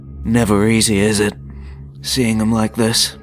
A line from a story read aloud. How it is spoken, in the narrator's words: The Annihilator sighed in his baritone voice